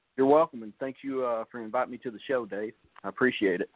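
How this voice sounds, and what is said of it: Noticeable regional accent. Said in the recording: “You hear his accent. I wasn't lying about it.”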